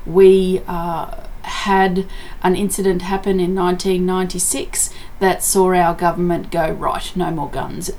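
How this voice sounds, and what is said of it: Australian accent. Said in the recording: “as you know by the accent, and if you've been following me for a long time, I'm in Australia”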